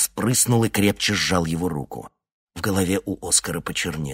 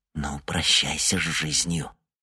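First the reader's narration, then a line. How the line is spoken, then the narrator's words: Whispered. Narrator (Russian): Йонни прошептал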